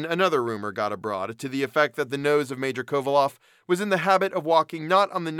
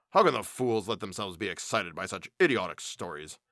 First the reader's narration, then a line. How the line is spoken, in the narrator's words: growling savagely to himself